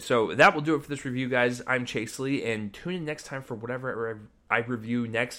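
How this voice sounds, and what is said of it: Slurred speech. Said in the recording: “I'm slurring my words”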